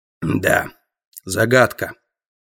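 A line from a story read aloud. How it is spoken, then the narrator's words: Grumbling guard. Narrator (Russian): буркнул охранник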